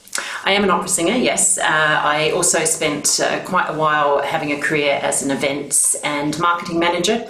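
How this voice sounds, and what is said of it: Australian accent. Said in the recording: “I'm from Australia, if anyone can spot the accent ... I'm still holding firm to the Aussie accent”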